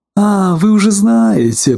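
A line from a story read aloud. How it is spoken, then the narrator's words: Disappointed drawl. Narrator (Russian): протянул Коко, разочарованный в своем удовольствии рассказать свежую новость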